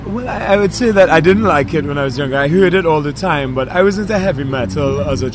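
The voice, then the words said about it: Trinidadian-influenced English accent. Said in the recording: “he had some time spent in Trinidad. And as you hear from his voice, it's very evident from his accent.”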